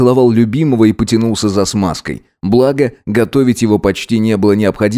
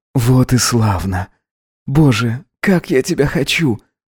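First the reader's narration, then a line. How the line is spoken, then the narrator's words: Whisper. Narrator (Russian): прошептал он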